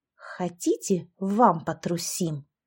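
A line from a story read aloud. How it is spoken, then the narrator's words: Spiteful hiss. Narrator (Russian): злобно прошипела Яшка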